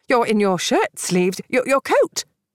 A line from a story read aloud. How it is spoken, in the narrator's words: the secretary exclaimed